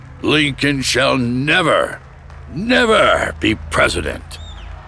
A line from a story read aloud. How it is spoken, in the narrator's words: hollers above the growing roar of approval